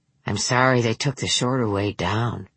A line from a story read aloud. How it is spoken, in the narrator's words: murmured